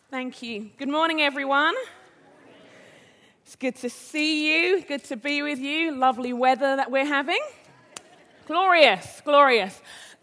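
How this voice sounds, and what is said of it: Accent unlike a Minneapolis accent. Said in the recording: “accent, as you'll see in a moment, is a little bit different than the typical Minneapolis accent.”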